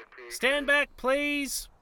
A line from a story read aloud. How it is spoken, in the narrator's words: the first cop called out